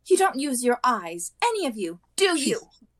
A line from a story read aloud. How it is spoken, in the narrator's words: She snapped